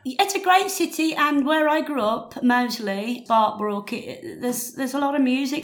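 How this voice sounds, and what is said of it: Birmingham accent with a twang. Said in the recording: “twang of your accent ... You grew up in Birmingham”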